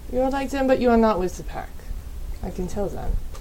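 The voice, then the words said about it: Put-on German accent. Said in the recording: “Worked on the German accent, by the way.”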